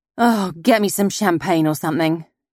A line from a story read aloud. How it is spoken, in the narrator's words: moaned Annie